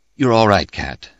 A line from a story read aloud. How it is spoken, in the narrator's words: I said